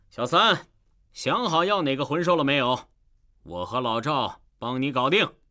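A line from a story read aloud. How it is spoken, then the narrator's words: Loud question. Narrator (Chinese): 弗兰德大声向唐三问道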